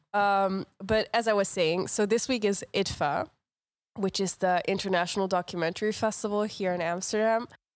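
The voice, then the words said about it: Rough, congested-sounding voice. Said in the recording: “I have a cold. That my voice sounds terrible ... lumpy noises”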